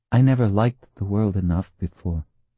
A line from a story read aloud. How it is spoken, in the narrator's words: she said softly